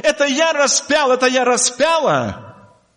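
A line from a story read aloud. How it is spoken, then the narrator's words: Crying out. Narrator (Russian): мы били себя в грудь и кричали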